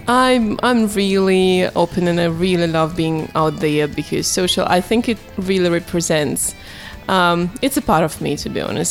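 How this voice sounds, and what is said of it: Russian accent. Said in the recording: “Russianness ... I'm still trying to keep my accent, my funny one.”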